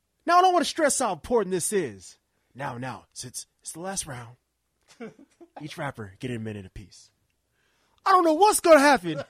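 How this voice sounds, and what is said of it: Imitates another person's voice. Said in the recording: “my Future impression”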